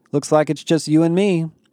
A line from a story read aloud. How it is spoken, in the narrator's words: Becky said